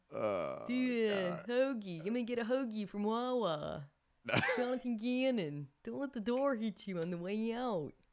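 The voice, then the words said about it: Put-on Philadelphia accent. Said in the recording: “That was not an Eagles accent or Philadelphia accent. ... I don't know what that Boston was. ... It was a little Boston. ... The Philadelphia accent”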